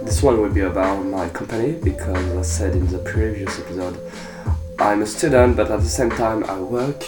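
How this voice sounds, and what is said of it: Sick voice, sore throat, congested. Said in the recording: “I'm sick. Maybe you could hear it in my voice, but I'm like, I got a sore throat, and then your nose, you keep sneezing ... it changes your voice”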